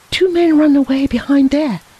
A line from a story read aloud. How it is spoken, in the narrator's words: cried he